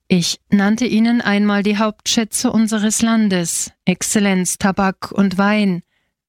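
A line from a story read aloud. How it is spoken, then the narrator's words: Plain. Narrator (German): sagte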